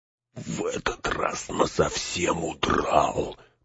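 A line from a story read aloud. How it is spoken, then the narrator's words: Grumbling mutter. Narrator (Russian): пробурчал Сэм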